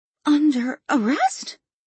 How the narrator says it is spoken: Kelly gasped

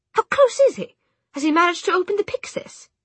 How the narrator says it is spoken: Charlotte snapped

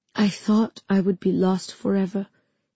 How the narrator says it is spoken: he said hoarsely

